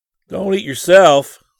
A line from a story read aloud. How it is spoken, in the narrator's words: Scotty exclaimed in mock horror